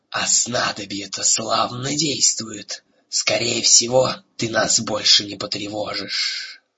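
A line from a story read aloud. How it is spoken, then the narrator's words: Chilling laughing hiss. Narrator (Russian): леденящий душу хохот Разыка, который прошипел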